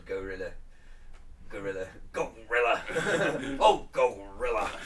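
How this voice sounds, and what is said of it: Jesse Ventura wrestling commentator impression. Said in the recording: “My only impression of him I could do is him from the wrestling, when as his co-commentator was Gorilla Monsoon”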